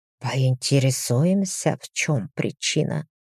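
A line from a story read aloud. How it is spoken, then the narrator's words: Whisper. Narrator (Russian): прошептал Дамиен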